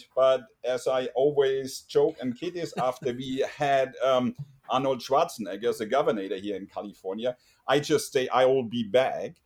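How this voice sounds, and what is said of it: German accent. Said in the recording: “my lovely accent, originally from Germany ... I don't get rid of my lovely accent”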